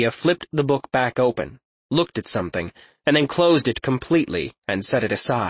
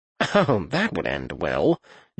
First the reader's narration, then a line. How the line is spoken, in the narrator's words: Jonan mumbled